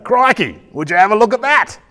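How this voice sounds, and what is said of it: Steve Irwin impression. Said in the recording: “my impersonation of Steve Irwin”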